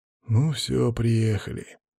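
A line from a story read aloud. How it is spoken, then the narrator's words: Barely audible remark. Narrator (Russian): еле слышно прокомментировал Макс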